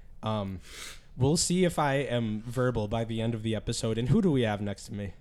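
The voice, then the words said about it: Raspy, hoarse voice. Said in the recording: “raspy ... tonight, losing my voice”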